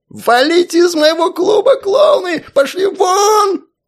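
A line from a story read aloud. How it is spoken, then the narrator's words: Determined shouting. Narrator (Russian): кричал директор, настроенный более чем решительно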